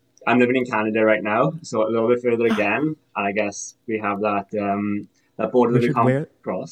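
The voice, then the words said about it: Welsh accent. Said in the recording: “Is this an accent? ... I'm originally from Wales.”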